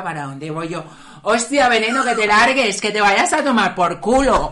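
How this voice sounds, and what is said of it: Strong Venezuelan Spanish accent. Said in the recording (Spanish): “con este acento venezolano, más criolla que una arepa”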